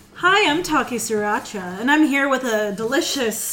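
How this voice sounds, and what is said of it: Announcer-style radio voice. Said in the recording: “radio voice.”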